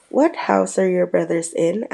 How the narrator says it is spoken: asked Harry

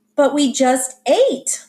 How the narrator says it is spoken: my mother cried

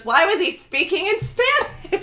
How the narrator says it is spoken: loudly goes

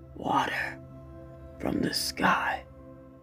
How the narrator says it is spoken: Stilgar whispered

